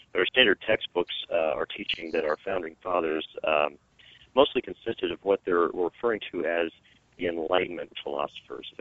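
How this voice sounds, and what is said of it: Slightly hoarse voice. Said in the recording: “my voice is sorry, a little, I apologize to everyone, I'm a little hoarse”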